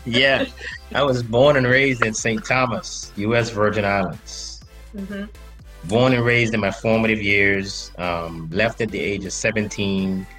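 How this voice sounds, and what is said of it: Slight accent. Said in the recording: “he has a slight accent.”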